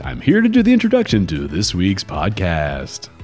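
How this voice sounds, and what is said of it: Radio announcer voice. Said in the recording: “this is my radio announcer voice.”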